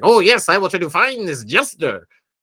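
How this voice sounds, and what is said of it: Imitates another person's voice. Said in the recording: “That was a pretty good Danhausen impression.”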